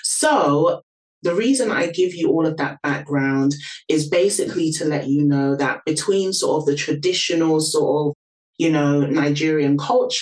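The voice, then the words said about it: London British accent. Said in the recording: “you guys can probably hear from my accent, born and raised in London”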